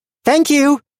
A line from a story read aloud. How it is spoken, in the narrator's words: bringing one paw up to her mouth to holler after the retreating figure